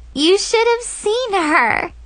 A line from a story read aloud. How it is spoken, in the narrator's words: Chloe squealed